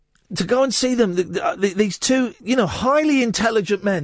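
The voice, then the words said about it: Speaks with a noticeable accent. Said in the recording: “my accent is bothering you ... The accent's bothering me.”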